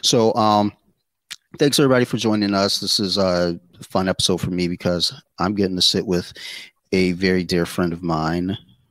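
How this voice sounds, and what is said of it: Calm, low radio-style voice. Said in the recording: “I'm using my calm radio voice today because of allergies”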